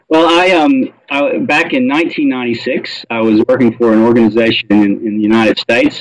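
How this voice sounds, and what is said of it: Faded American Southern accent. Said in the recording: “it's a southern accent that's been bastardized over nearly a quarter of a century ... We can still hear it loud and clear”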